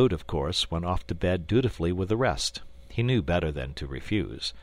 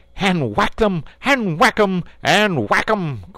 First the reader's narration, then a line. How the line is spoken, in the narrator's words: cried the toad in ecstasy